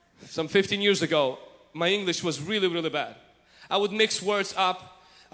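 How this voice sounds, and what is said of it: Non-native English accent. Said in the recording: “man, you have an accent.”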